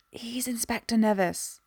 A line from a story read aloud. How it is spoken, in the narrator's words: hissed from behind her